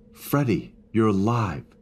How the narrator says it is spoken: cried

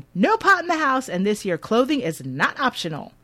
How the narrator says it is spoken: Mom meets him at the door shouting

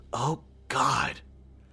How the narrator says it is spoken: Beth whispered

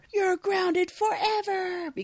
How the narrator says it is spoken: her grandpa at home and yelling at her

